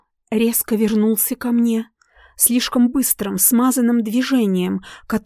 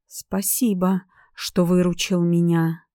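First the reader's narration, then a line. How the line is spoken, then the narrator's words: Slow but confident. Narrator (Russian): произнесла медленно, но уверенно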